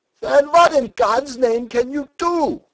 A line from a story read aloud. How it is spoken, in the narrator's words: shouted Stumm